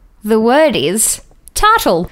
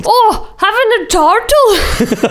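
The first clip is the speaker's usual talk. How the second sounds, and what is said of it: Weak attempt at Scottish accent. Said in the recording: “I'm not good at the Scottish accent.”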